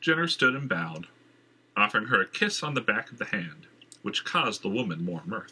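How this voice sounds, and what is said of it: Usual voice. Nothing is said of it.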